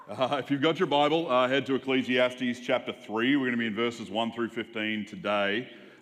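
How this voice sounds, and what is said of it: Southern American accent. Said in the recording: “a real southern accent”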